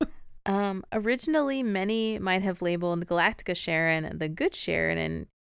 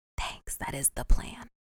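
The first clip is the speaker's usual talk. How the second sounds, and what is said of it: Whispering. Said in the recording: “Why are we whispering?”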